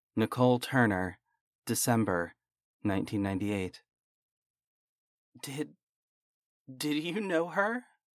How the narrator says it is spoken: I whispered

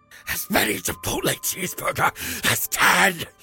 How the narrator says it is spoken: hissed

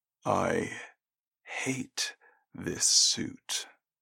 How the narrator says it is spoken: he said quietly

